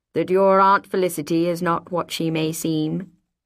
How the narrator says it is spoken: he asked, in that horrible level voice

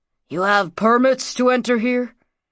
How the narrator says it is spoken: One asked gruffly

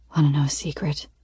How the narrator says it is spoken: He whispers

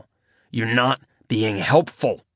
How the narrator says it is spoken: Nick growled under his breath

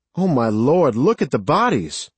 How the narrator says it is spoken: Mary cried, her hands over her mouth

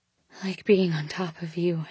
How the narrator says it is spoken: breathed

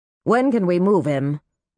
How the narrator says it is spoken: the woman asked

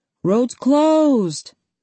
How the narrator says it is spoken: shouted

